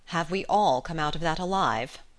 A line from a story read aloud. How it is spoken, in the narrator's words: she asked solemnly